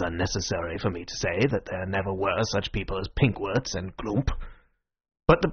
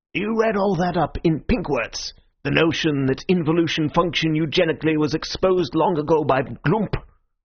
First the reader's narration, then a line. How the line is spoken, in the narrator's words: I replied quite scornfully